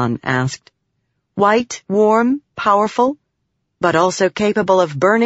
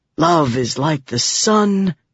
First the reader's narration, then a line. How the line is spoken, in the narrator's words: Balat said, sighing